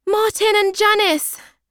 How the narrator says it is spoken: shout

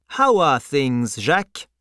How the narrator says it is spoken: the traveller asked

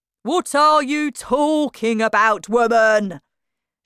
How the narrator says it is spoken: shouted Mr

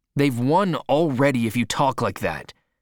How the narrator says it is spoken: replied Henry sharply

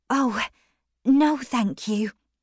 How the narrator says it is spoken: Maggie replied quietly

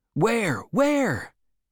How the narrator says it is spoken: many voices cried

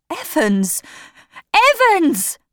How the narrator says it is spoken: cried

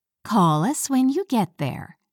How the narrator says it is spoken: said his mom

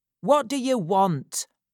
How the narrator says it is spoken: called out impatiently

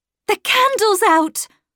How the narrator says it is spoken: I cried

